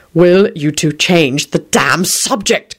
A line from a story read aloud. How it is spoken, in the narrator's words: Quentin hissed desperately